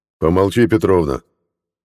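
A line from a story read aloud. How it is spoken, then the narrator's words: Angry bark, man. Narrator (Russian): Зло рявкнул мужик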